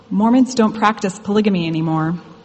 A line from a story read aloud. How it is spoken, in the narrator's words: With nerves rushing, timidly said